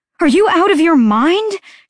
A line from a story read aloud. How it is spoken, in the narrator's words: she shouted